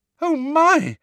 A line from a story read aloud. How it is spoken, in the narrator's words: Hermione squeal, terrified